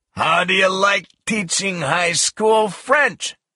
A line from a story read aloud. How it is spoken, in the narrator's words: shouted